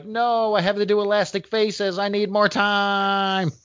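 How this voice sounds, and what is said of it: Whiny impression of another person. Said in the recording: “That's my Mark Bagley impression. ... I don't know why he's whiny, but I picture him whiny.”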